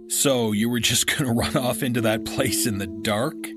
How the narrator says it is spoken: he laughed

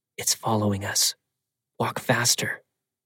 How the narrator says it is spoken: Under my breath, said

